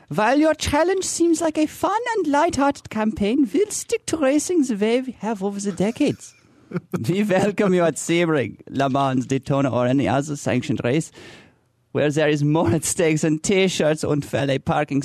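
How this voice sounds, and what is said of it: Put-on German accent reading. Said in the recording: “can you read it with a German accent? It would be a lot more powerful. ... I can't do it as well.”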